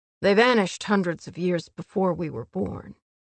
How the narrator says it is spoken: Cassian said firmly

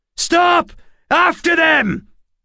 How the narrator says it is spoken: the leader of the group shouted

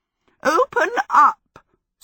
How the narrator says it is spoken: Sophie cackled at it

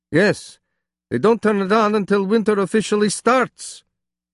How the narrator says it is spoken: he again shouted the last word

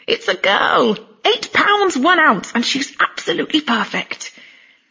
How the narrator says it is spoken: Trainor, breathless and tearful, announcing in a slightly disbelieving exclamatory tones

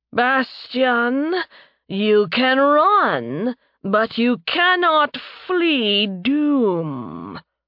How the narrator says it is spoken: Thanatos shouted, his voice echoing around them

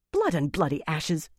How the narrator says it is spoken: Elaine snapped

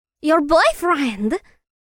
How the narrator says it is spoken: Luna gasped

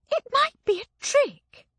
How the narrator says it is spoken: she hissed into my ear

